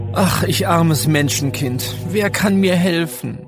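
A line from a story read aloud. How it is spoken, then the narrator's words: Groaned. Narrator (German): stöhnte Kurt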